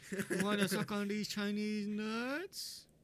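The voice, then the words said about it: Impression of Mr. Chang from Hangover. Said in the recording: “Who am I of the hangover guys? ... Mr. Yeah, Chang. ... Mr. Chang, yeah. ... Do an impression.”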